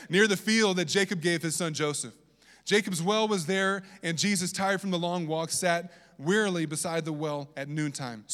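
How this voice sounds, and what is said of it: Southern US accent. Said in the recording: “that's my southern accent coming out from Virginia”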